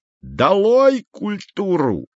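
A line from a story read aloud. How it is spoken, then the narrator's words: Yelling. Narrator (Russian): вопил Изя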